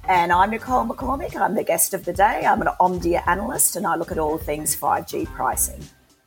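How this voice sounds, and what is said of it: Australian accent. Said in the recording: “as the accent says, Australia.”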